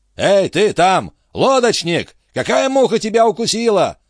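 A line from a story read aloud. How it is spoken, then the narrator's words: Shouting. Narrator (Russian): закричал Антифер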